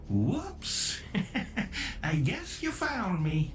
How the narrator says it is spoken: giggled the monstrous marionette

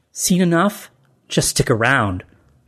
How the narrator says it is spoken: she snapped

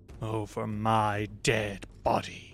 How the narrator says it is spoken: he hisses

